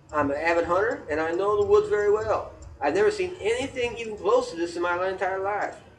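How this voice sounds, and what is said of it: Put-on Southern American accent. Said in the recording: “That was a very southern voice, wasn't it?”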